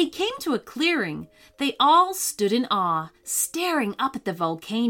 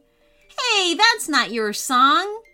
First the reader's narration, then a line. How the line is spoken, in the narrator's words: Caleb laughed